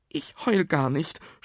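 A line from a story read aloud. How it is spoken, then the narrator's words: Sobbing. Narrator (German): schluchzte Nuno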